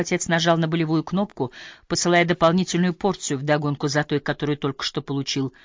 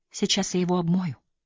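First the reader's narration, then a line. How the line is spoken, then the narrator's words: Whisper. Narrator (Russian): прошептала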